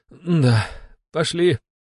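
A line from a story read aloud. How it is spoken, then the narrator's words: Uncertain. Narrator (Russian): неуверенно проговорил граф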